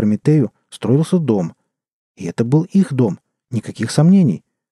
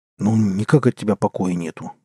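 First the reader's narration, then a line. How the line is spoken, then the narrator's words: Grumbling. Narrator (Russian): буркнул тот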